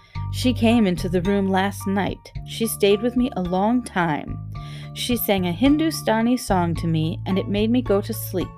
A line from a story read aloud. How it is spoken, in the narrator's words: said Colin